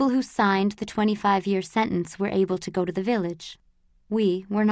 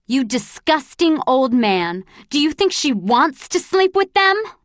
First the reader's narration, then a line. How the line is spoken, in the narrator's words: I yelled